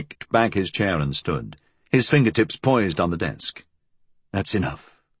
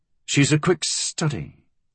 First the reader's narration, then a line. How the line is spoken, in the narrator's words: Fool said tightly